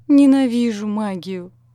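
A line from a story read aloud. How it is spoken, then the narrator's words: Groan. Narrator (Russian): простонал Данни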